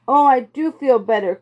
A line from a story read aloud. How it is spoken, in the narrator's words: cried Violet